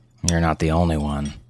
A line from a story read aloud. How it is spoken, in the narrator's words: her husband Steve mumbled